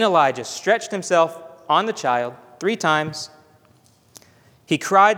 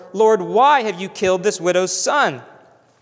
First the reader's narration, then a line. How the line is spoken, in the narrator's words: Elisha cried to the Lord